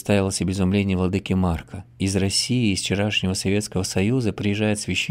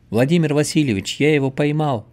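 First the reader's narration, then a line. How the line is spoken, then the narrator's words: Shouting into phone. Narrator (Russian): закричал я в трубку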